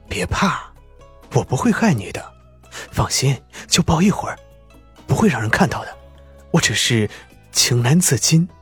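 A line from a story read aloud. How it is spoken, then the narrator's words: Tender low growl. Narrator (Chinese): 狄言的声音越发的温柔起来，低声吼道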